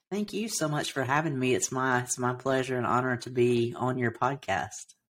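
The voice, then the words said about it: Southern US (Alabama) accent. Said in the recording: “I love your accent... I grew up in Alabama, so I have a bit of a Southern accent... Alabama accent.”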